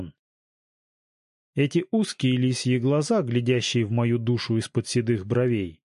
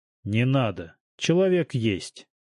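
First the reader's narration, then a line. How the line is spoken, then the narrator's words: Calm. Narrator (Russian): спокойно промолвил Салтыков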